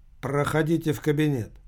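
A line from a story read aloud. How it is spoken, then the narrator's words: Slight accent. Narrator (Russian): сказал с легким акцентом security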